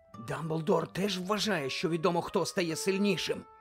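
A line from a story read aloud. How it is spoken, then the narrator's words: Whispered. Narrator (Ukrainian): прошепотів Рон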